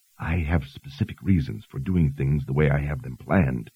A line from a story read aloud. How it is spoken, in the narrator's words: Dalton whispered